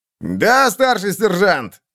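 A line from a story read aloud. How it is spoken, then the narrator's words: Barked. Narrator (Russian): рявкнул усатый идиот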